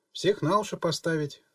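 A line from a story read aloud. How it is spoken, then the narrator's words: Snort. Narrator (Russian): хмыкнула Лера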